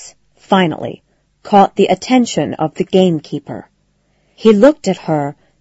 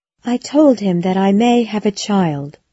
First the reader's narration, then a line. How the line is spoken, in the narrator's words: After a moment of silence, Connie quietly added